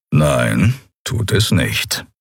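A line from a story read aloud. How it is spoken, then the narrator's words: Calm reply. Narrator (German): erwiderte Keru ruhig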